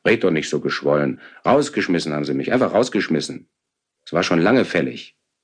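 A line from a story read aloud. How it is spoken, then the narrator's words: Angry. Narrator (German): sagte ich wütend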